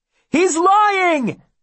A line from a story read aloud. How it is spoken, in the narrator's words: Will shouts